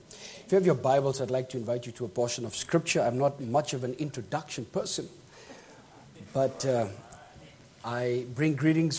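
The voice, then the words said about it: British accent. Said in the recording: “I hope my accent won't be too bad tonight. I'm British, so some of my words will be a bit different than yours”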